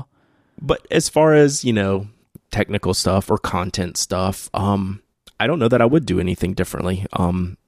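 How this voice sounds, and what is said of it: Slight Southern US drawl. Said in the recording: “my southern, you know, barely southern drawl ... People tune in to hear your southern drawl.”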